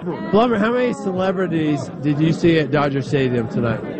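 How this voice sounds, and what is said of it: Usual voice. Nothing is said of it.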